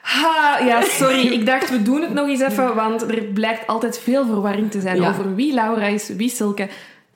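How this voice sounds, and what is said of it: Strong Brussels Dutch accent. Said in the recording (Dutch): “Brussels accent, hoorde fel.”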